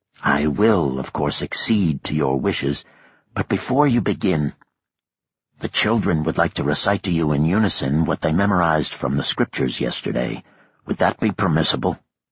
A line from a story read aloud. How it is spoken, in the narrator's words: Cameron whispered to them